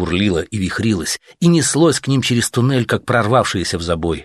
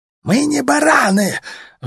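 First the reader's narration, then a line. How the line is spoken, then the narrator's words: Sudden yell from ahead. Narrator (Russian): вдруг впереди кто-то заорал, кто-то из уродов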